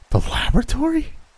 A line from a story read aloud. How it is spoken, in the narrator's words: He answered in a puzzled tone